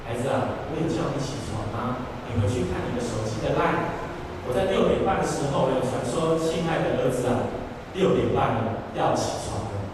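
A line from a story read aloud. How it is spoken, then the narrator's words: Gentle motherly tone. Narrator (Chinese): 有智慧、温柔的妈妈就用温柔的口气跟他讲说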